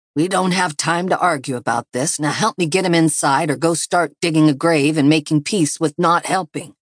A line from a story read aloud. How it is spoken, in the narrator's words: Elijah growled back to her